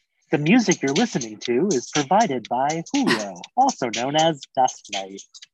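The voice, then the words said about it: Soft public-radio announcer voice. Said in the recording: “It's my NPR voice. ... It was very Terry Gross.”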